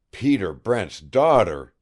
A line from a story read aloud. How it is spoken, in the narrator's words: he exclaimed